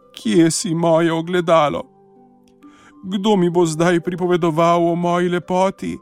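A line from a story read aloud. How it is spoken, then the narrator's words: Tired crying. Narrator (Slovenian): utrujena zajokala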